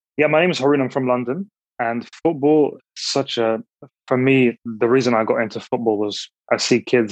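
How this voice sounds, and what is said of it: Slight accent. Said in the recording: “We hear a little accent.”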